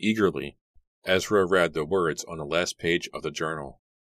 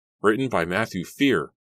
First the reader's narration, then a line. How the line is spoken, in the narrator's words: he cried